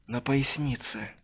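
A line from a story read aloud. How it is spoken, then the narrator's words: Very quiet. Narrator (Russian): максимально тихо ответил Илья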